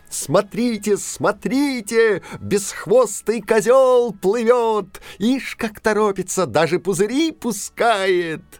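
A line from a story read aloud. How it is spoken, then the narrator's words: Distant cheerful shout, clapping. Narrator (Russian): где-то далеко, может, на самом дне моря, кто-то захлопал в ладоши и весело закричал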